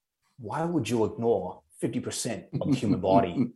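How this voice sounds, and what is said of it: Imitates another person's voice. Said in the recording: “in my best John Danaher voice ... That's pretty good, dude. That's pretty good, actually.”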